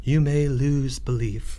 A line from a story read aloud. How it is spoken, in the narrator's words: said the high priest quietly